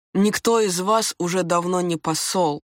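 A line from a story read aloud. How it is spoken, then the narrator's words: Plain. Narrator (Russian): сказала я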